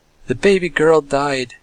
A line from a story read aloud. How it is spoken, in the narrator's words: laughing bitterly she added